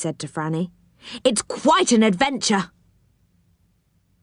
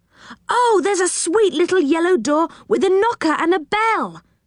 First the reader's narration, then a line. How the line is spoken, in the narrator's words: cried Rick in surprise